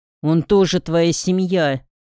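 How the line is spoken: Menacing growl. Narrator (Russian): угрожающе прорычал Евгений

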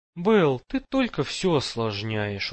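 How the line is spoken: Tired. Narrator (Russian): устало сказал Майлз

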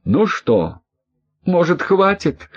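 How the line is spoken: Pleading. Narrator (Russian): взмолилась

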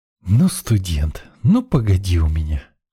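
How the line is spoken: Resigned sigh. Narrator (Russian): вздохнул я, понимая, что отвертеться от участия в празднике вряд ли получится

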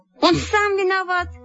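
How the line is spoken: Exclaiming. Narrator (Russian): воскликнула Сима

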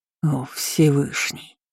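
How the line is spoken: Muttered. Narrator (Russian): пробормотал Райлин

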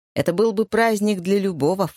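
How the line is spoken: Snort. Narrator (Russian): фыркнула Энни

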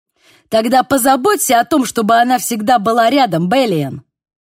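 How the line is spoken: Bark. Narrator (Russian): рявкнула Цундер

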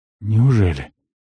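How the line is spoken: Breathed out. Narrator (Russian): выдохнул полуэльф

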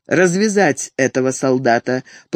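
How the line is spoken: Commanding tone. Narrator (Russian): повелительным тоном велел

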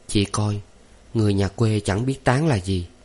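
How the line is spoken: Happy whisper. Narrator (Vietnamese): Nàng mỉm cười sung sướng ghé vào tai Phụng thì thầm

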